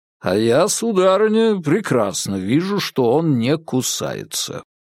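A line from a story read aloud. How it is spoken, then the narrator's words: Resonant man's voice. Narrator (Russian): ответил звучным голосом человек под сосной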